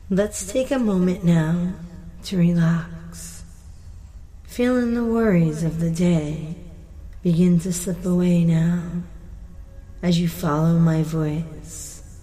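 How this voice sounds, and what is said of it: Slow, calming hypnotic voice. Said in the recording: “My voice is a calming voice.”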